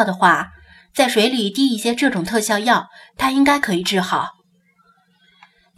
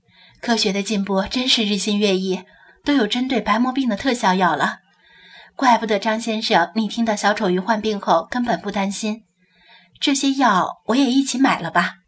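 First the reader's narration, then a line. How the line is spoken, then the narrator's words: Soft sigh. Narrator (Chinese): 柳英轻叹一声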